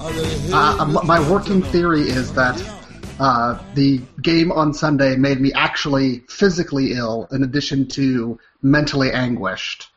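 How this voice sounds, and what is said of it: Congested, nasal voice. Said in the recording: “looking a little under the weather ... I've got a little bit of a cold brewing in my nose right here ... Maybe I'll sound less nasally than normal, or more”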